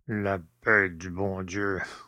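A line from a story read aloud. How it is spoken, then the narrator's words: Grumbling, old man. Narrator (French): bougonna le père Jacques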